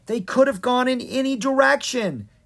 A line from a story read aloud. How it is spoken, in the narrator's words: exclaimed